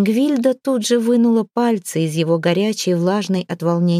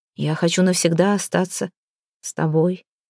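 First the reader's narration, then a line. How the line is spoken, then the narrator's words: Quiet. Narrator (Russian): тихо окончил он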